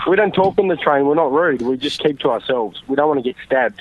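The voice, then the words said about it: Australian accent. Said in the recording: “I love Australian people ... your accent stinks. I'd rather jump off a fucking bridge than to hear you guys talk”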